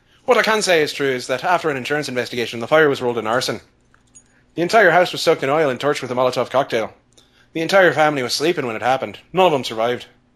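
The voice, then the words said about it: Irish accent. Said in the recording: “Your Irish accent is so much better than mine.”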